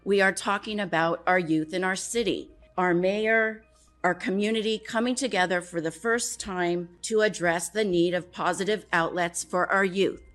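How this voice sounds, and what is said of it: Emotional, strained voice. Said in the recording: “I'm sorry that I'm getting emotional”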